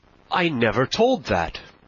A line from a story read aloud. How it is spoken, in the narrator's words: cried the squire